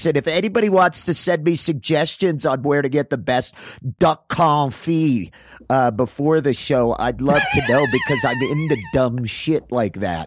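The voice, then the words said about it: Impression of Adam Caton Holland. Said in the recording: “my like really cool impression of him ... Come see Adam Caton Holland headline”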